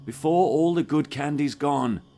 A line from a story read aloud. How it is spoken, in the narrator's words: Justin called out